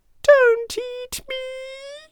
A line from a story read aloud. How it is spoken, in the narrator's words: squeaked on